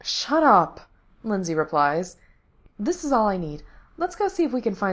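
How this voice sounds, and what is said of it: Usual voice. Nothing is said of it.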